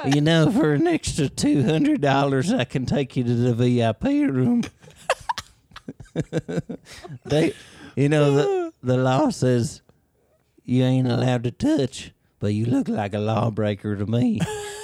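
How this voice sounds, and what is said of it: A put-on accent. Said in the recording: “I like the accent.”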